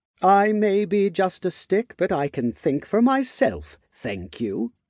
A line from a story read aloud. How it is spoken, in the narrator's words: the wand replied indignantly